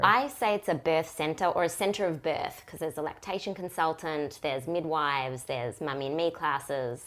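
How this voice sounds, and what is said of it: Australian accent. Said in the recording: “has a very sexy accent ... Very far down south, Australia.”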